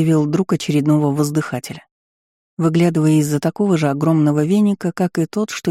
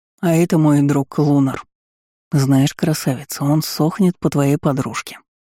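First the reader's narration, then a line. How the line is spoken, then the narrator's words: Conspiratorial. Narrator (Russian): сообщил он заговорщицким тоном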